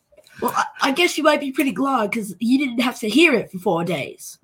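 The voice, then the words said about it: Put-on British accent. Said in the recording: “my British accent ... Oh, now I'm hearing it.”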